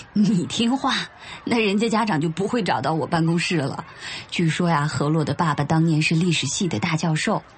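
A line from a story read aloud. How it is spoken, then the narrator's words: Laughing. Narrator (Chinese): 林老师顿时便笑了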